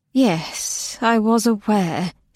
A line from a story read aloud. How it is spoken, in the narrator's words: said the angel wearily